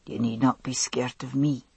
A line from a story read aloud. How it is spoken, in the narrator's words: he said softly